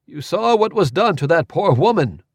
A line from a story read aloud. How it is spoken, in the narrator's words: Orlo exclaimed